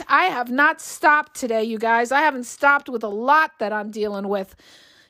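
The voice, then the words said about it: Hoarse, strained voice. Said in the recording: “I'm losing my voice.”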